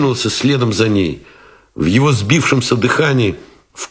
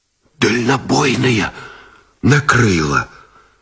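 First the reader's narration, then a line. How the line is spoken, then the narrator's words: Strained whisper. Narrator (Russian): Шепотом выдавил связист Гусев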